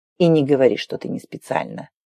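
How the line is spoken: Cold remark. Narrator (Russian): холодно добавил

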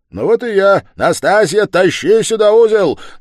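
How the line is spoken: Shouting downward. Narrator (Russian): крикнул Разумихин вниз

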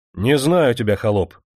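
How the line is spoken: Stern interruption. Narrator (Russian): строго прервал его Демидов

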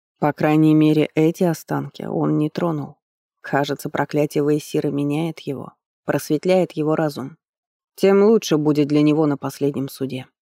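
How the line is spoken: Cold reply. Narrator (Russian): холодно ответил Хефер

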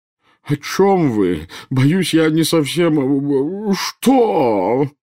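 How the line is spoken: Wailing. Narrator (Russian): взвыл премьер-министр

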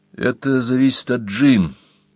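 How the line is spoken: Uncertain. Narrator (Russian): неуверенно сказал Рудольф

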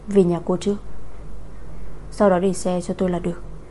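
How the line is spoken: After a soft breath. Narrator (Vietnamese): khẽ hít một hơi, nói

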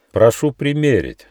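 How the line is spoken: Solemn small voice. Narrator (Russian): торжественно сказал гномик Нюфа

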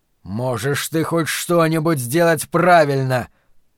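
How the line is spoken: Roared. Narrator (Russian): проревел Флэг

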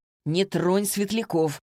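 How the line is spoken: Sharp shout. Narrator (Russian): прикрикнул на него Вик

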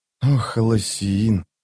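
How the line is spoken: Tearful murmur. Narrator (Russian): пробормотала она, когда на глаза навернулись слезы

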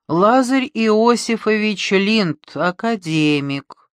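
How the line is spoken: Slow singsong. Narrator (Russian): Медленно, непонятно и чуть нараспев сказала она

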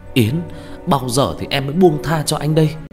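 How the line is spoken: Frightened cry. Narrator (Vietnamese): Huy kinh sợ kêu lên

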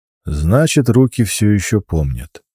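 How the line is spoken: Calm. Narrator (Russian): говорит спокойно

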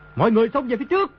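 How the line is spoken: Desperate loud command. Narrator (Vietnamese): Đồ Nhĩ Bố Thanh thầm kêu khổ, biết đã trúng kế địch nhân, quát lớn

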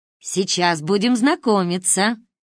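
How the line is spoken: Booming voice from behind. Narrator (Russian): голос прогремел прямо за моей спиной

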